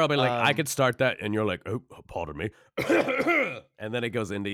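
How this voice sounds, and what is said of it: Usual voice. Nothing is said of it.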